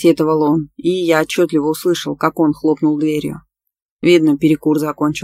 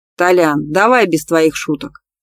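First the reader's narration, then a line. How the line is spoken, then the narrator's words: Near growl. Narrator (Russian): чуть ли не прорычал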